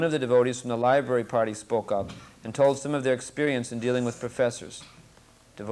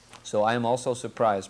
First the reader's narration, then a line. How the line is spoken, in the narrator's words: Prabhupada said